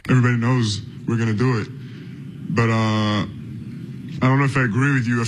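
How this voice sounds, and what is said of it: Thick, deep French accent. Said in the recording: “it must just be the accent and a big French guy thing ... he sounds a little bit different ... that thick, deep French accent”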